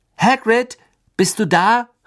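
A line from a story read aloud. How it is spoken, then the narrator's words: Calling out. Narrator (German): rief Harry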